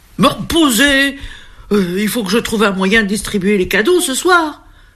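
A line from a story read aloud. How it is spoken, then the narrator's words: Desperate exclamation. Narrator (French): s'écrie le Père Noël désespéré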